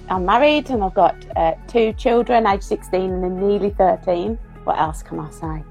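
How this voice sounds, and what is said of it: Birmingham English accent. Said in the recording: “if you haven't gathered from the accent, I'm from Birmingham in the UK.”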